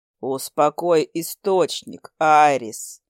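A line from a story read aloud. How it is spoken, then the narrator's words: Calm declaration. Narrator (Russian): спокойно заявил Хантер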